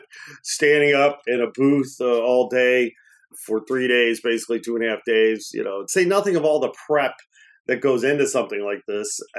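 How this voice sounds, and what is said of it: Raspy, tired voice. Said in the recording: “I'm raspy, I'm tired, I'm sore.”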